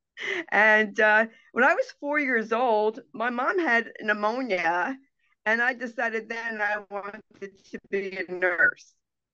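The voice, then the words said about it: New Jersey accent. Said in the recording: “I'm from New Jersey, as you can tell by my accent.”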